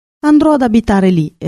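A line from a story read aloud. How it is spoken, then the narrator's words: Exclamation. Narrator (Italian): esclamò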